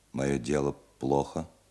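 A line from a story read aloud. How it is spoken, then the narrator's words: Calm clear question. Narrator (Russian): спросил немец довольно спокойно и четко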